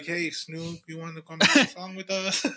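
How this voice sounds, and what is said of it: Weird put-on accent. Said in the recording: “super weird-ass accent”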